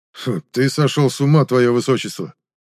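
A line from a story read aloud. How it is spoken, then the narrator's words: Snort. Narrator (Russian): фыркнул Лиоран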